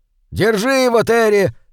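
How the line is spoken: Shouting through blood. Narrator (Russian): крикнул он бортмеханику, не обращая внимания на хлынувшую изо рта кровь

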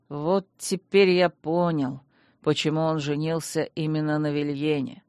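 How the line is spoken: Grumbling. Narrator (Russian): проворчал маг

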